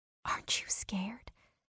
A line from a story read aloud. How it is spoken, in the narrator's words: I whispered the question, afraid of the answer, afraid that I might be the coward in the pair of us